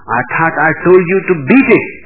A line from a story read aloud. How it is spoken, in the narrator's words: the man snarled